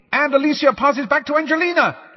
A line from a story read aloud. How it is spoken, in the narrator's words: Lee shouted, Lee was trying to drown out the words of the song